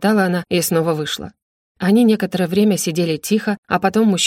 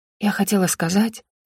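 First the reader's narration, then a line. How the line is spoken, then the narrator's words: Cautious whisper. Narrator (Russian): зашептала Роза, подумав, что служанка могла услышать ее громкий голос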